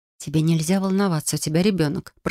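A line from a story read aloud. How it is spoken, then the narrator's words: Calm whisper. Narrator (Russian): прошептала я спокойно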